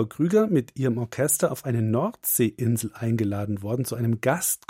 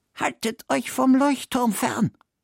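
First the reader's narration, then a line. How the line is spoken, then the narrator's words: Grim whisper. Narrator (German): flüstert er Frau Krüger mit finsterem Blick zu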